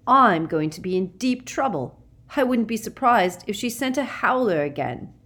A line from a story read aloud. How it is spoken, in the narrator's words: said Ron bitterly